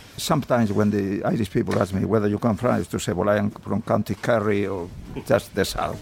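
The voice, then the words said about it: Foreign accent speaking English. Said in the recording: “I never felt a foreigner in Ireland, in spite of my accent.”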